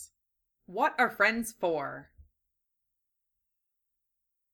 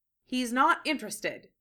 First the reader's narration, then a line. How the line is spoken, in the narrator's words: he said, trying to keep his tone firm but unprovocative